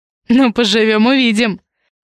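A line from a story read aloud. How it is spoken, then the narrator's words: Chuckling. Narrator (Russian): хохотнул Алексей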